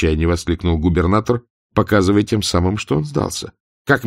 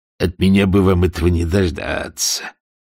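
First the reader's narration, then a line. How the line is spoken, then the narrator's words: Bitter grumble through teeth. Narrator (Russian): проворчал сквозь зубы желчный капитан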